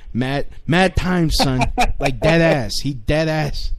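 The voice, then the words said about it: Put-on New York accent. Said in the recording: “go really New York ... talking New Yorker”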